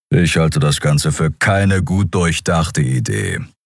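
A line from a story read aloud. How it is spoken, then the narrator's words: Grumbling. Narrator (German): brummte er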